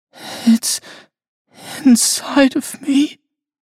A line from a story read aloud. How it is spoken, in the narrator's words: she whimpered